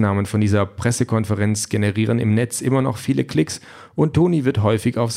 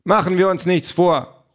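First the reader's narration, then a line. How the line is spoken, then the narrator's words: Calling out. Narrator (German): ruft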